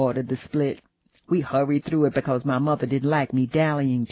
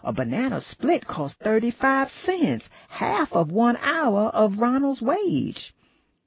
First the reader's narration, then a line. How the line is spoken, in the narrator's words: exclaimed